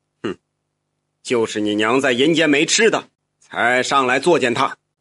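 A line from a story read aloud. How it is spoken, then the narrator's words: Cold. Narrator (Chinese): 这马纸匠冷冷的说道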